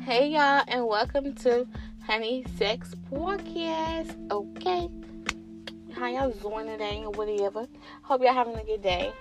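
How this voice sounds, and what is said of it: Attempted New York accent. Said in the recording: “that's like my New York accent. I be trying, you know what I'm saying? But it be hard”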